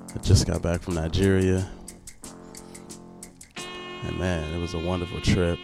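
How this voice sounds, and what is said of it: Voice sounds sick, under the weather. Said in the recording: “Excuse my voice, man. Feeling a little bit under the weather.”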